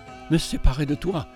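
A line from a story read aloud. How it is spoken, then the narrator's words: Murmuring. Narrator (French): murmurait-elle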